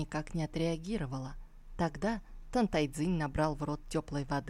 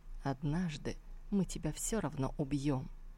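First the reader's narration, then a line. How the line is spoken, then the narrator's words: Whispering into her ear. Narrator (Russian): прошептал ей на ухо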